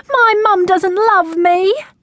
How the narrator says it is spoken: wailed

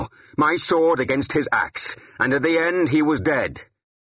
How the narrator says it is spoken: I said, too loudly now

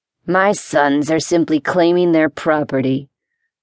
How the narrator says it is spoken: growled the older man

